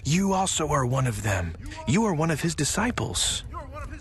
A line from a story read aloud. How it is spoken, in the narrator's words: someone else in the crowd shouts at Peter